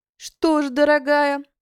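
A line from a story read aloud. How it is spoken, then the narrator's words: Speaking after laughter. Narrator (Russian): вымолвила мадам Зебра, когда перестала смеяться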